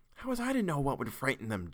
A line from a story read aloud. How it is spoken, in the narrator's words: Jared whispered back